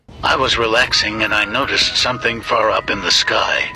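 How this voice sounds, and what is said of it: Creepy-sounding voice. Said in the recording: “You have a creepy voice.”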